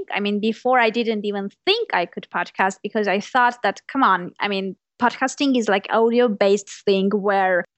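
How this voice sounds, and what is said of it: Speaks with a non-native accent. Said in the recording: “My accent. ... having an accent”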